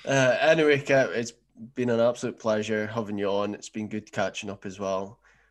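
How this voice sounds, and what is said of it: Aberdeen Scottish accent. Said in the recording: “an Aberdeen accent”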